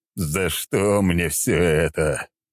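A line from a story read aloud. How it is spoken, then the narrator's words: Groaning. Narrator (Russian): простонал Сергей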